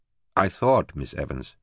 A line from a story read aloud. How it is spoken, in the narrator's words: he said stiffly